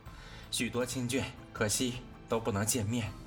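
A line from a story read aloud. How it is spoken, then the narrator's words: Sighing. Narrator (Chinese): 贾妃叹道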